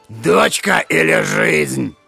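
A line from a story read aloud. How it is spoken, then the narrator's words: Thunderous roaring bark. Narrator (Russian): зарычал так, что дикий виноград посыпался со стены, и рявкнул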